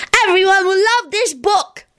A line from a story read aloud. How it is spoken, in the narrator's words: he shouted enthusiastically